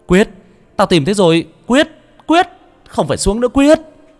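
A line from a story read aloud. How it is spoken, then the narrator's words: Shouting. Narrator (Vietnamese): Tôi quát lên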